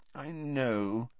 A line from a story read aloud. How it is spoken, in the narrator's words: said Hermione soothingly